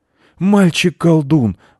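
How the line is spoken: Pleading. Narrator (Russian): взмолился председатель

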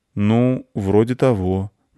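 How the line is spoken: Uncertain boy's voice. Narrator (Russian): неуверенно ответил мальчик

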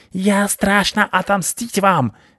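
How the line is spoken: Shrieking. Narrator (Russian): визжал он

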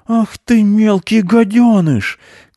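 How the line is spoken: Shouting from afar. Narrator (Russian): кричал он оттуда

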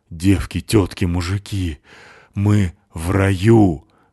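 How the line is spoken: Breathless exhale. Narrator (Russian): выдохнула Натаха

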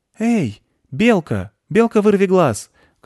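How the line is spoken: Boy shouting. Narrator (Russian): крикнул мальчик

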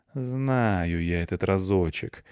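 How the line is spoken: Gloomy muttering cat. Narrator (Russian): мрачно пробормотал кот

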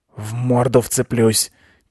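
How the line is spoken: Quiet whisper. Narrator (Russian): тихо шепнул Рыжопиус Аня

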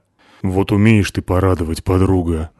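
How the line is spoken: Sighing. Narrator (Russian): вздохнула Натаха

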